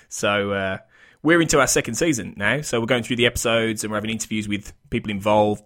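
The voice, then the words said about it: British accent. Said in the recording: “as you can tell by my charming accent, I am from the UK”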